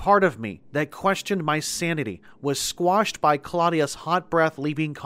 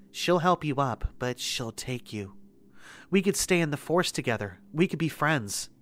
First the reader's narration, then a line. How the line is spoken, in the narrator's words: Claudia whisper